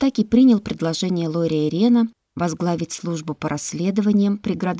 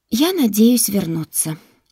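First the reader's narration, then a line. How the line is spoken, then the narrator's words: Sighed. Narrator (Russian): вздохнула Яна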